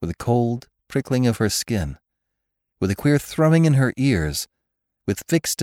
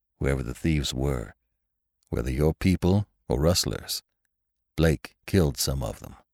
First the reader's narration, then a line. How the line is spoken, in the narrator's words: said Lassiter